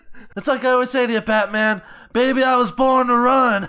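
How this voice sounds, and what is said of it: Imitates another person's voice, poorly. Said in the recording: “worst Bruce Springsteen impression”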